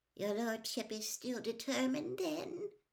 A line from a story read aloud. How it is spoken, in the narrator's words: Wormtail said quietly